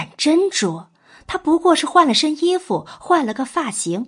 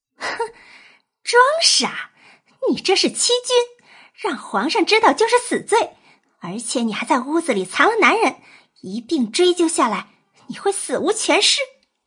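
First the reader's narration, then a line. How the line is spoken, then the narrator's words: Sneering laugh. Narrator (Chinese): 秦玉莹笑了，嗤笑起来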